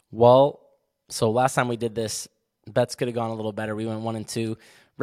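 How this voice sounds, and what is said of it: Hoarse voice. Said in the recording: “my hoarse voice I've got going on right now”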